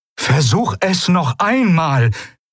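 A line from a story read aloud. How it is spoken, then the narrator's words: Called out. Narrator (German): rief das Eidolon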